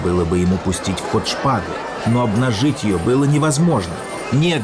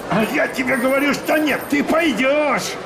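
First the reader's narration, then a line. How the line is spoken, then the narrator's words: Young man yelling. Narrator (Russian): Орал на Вильяма длинный, тонкий, светлоглазый парень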